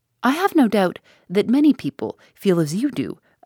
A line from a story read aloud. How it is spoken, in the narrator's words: I exclaimed